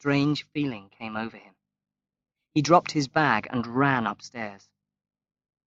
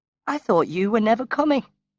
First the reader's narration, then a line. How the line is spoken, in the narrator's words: she answered brightly